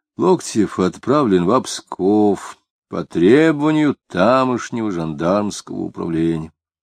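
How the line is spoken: Very quiet after pause. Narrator (Russian): Жандарм, помолчав, очень тихо сказал

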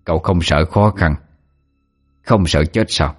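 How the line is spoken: Laughing reply. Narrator (Vietnamese): Ông ta cho cười đáp

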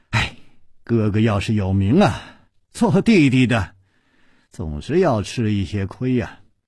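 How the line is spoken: Pause, then sighing. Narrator (Chinese): 楚留香沉默了一会儿，才叹气了一声说

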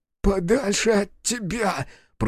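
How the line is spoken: Hoarse wheeze. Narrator (Russian): просипел Сашка

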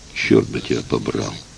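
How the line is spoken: Breathless muttering. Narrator (Russian): Тяжело дыша, она пробормотала

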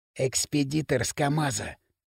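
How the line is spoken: Whisper. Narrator (Russian): шепнул примус Лысому

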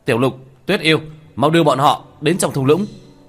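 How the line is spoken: Loud shout. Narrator (Vietnamese): Tiểu Thất hét lớn một tiếng

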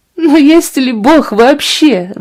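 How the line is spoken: Sobbing. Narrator (Russian): рыдала она

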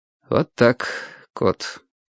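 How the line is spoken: Said in undertone. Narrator (Russian): вполголоса сказал Вадим

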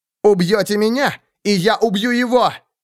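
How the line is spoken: Novice shouting. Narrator (Russian): крикнул послушник

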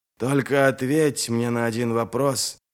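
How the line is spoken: Breathless exhale. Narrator (Russian): выдохнул Адем

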